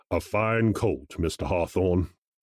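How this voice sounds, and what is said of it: Deep character voice. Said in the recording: “said a deep voice somewhere behind me”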